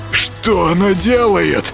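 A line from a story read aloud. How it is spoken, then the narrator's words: Hoarse wheeze. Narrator (Russian): просипел Юрка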